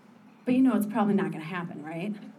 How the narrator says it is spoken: I sighed

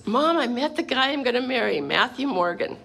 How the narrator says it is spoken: she was giggling, and she says

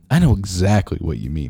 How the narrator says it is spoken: Ruby laughed

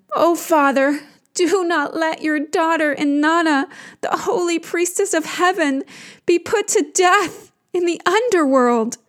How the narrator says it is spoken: she cries to him

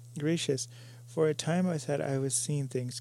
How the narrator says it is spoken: gasped the girl

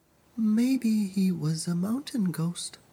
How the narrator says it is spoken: Malaika whispered

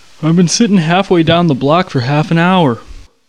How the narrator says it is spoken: he said, yawning

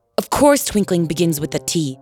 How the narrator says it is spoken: said the king sharply

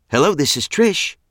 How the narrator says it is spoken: she said in a surprisingly upbeat tone

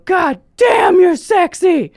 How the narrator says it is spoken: he just yelled

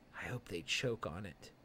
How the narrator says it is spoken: an exhausted Brett, she whispers to him

